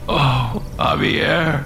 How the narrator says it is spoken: Alex whimpered

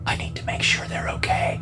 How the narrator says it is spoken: she whispered

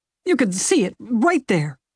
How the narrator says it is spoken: sputtered

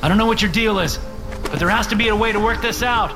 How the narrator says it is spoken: I shout

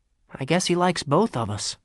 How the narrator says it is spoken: sighed Henry

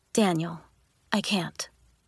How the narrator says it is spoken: she said quietly

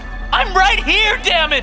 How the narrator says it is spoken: She screams

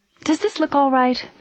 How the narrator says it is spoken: Bess asked, glancing nervously

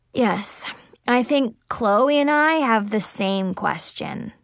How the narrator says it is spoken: Zoe muttered

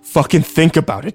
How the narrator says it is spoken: Kyle yelled at me

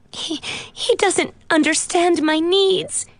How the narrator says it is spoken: she sobbed

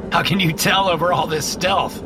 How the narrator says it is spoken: I laugh

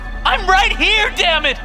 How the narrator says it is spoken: She screams

